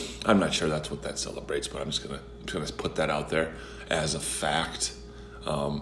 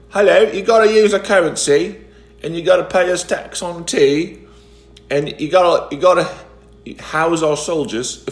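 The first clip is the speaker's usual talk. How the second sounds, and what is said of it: Put-on British accent. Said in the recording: “as you can tell by my voice, I am British”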